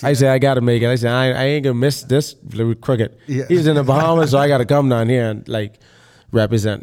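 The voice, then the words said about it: Strong non-American accent. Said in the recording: “Just know my accent... The accent looks strong sometimes... we try to sound American, yo... it ain't gonna work... We got a heavy accent sometimes”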